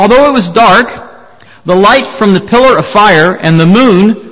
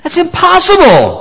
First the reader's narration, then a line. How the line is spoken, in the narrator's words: cried